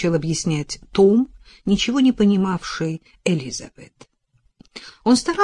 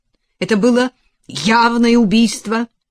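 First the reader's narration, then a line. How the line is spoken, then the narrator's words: Sharp, curt. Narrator (Russian): резко сказал сэр Дэн Холм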